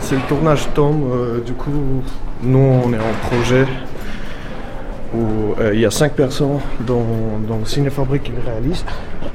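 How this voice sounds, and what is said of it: Slight mixed Russian-Armenian-English accent. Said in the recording (French): “Tu as un petit accent ... cet accent, je peux dire carrément que c'est un mélange de 3 langues en même temps. Anglais, russe, arménien”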